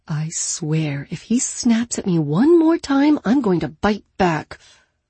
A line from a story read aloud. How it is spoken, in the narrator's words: Aloud, she muttered